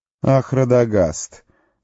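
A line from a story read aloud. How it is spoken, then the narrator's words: Mocking laughter. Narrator (Russian): захохотал он, и теперь-то уж ясно было, что он издевается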